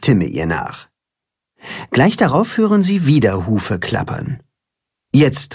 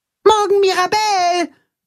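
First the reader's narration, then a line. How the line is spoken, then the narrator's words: Calling after someone. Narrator (German): ruft Max ihr nach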